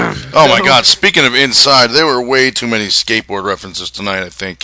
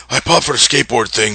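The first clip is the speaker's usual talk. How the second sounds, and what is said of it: Imitates another person's voice. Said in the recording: “my Xbox impression. ... that's not really that good. It sounded more like Laurinaitis.”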